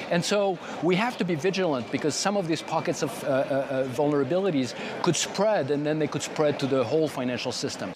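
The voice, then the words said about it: Noticeable accent speaking English. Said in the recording (Dutch): “Mooi accent”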